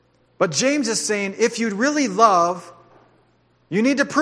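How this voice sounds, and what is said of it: Usual voice. Nothing is said of it.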